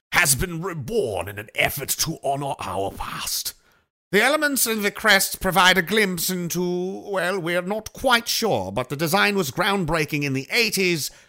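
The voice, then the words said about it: Put-on accent while reading aloud. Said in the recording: “I don't think it says it in this accent, but I'm adding this in because this is how I like to talk when I'm reading.”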